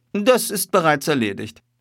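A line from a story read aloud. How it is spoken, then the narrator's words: Very calm. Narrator (German): sagte Holmes ganz ruhig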